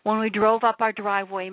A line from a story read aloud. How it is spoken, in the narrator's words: Mom screamed